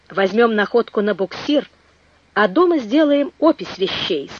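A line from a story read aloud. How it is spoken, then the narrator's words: Plain. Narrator (Russian): сказал инженер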